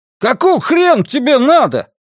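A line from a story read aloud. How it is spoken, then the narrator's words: Yelling. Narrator (Russian): заорал он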